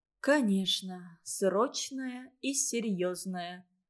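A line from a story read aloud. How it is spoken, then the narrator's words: Whisper. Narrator (Russian): прошептала Ольга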